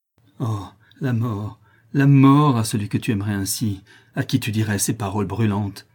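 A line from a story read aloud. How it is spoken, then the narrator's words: Furious jealous outburst. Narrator (French): s'écria-t-il dans un emportement de jalousie et d'ardeur furieuse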